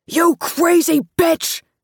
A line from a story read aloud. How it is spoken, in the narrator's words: Carlo screamed